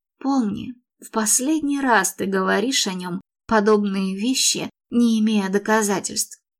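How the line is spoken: Furious whisper. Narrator (Russian): разъяренно прошептала

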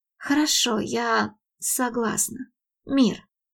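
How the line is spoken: Sighing. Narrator (Russian): Вздохнула она

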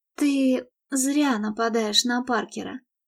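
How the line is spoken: Calm remark. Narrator (Russian): спокойно обронила она

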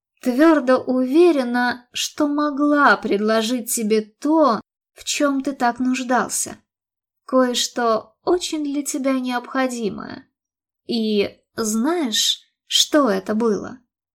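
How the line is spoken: Sighing. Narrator (Russian): вздохнула она

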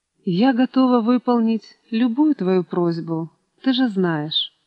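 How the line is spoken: Soft, sympathetic, pained. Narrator (Russian): мягко и участливо сказала, с болью

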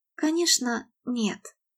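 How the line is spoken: Quiet reply. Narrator (Russian): тихо ответила она

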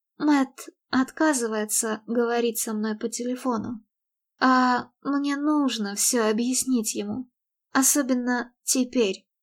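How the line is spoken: Pleading whisper. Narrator (Russian): умоляюще прошептала она

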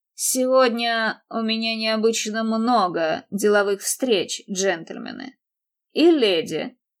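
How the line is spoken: Condescending tone. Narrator (Russian): добавил он снисходительным тоном

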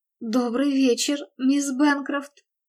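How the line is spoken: Astonished stammering guard. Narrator (Russian): пролепетал, заикаясь, охранник, раскрыв от изумления рот

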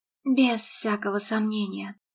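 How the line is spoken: Timid, smiling. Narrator (Russian): ответила Мередит, робко улыбаясь ему

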